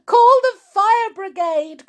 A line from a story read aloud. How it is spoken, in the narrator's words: cried Mrs